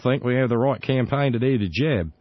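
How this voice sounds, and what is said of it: Weak attempt at Australian accent. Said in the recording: “Sorry, not so good with the Aussie accent”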